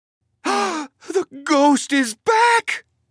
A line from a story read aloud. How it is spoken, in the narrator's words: Minnie cried